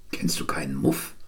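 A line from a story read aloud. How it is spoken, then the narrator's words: Whispered reply. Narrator (German): flüsterte ich zurück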